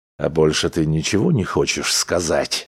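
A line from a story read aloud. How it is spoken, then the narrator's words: Growling. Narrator (Russian): прорычал он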